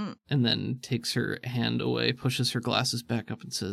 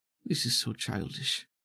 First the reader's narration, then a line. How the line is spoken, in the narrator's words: mutters to herself